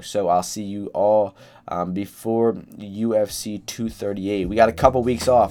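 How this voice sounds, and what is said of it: Slightly hoarse voice. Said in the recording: “my voice has been a little hoarse. My allergies are pretty uh pretty bad right now”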